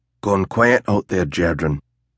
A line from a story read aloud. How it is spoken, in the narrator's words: the youth murmured